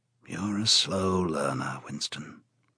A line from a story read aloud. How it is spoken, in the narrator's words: said O'Brien gently